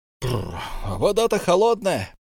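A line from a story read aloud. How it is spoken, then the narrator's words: Shouting over waterfall roar. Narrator (Russian): прокричал он нам в грохоте водопада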